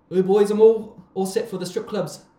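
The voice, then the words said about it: Put-on accent. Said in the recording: “That accent.”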